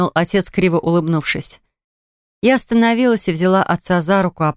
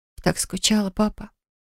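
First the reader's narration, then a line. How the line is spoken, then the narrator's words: Whisper. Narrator (Russian): прошептала я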